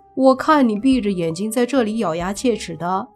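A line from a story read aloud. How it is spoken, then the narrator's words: Amused. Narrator (Chinese): 莫凡听了觉得好笑，说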